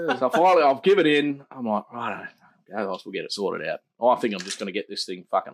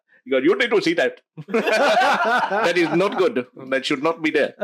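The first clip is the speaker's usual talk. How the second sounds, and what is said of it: Put-on Indian accent drifting Russian. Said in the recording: “that was an Indian doctor that said that ... I think that went Russian there”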